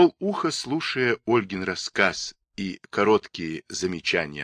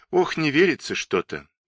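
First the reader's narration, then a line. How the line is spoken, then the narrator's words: Sigh. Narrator (Russian): вздохнула Ольга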